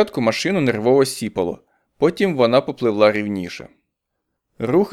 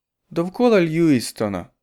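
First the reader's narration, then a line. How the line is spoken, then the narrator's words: Doomed, resigned voice. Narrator (Ukrainian): сказала вона приреченим голосом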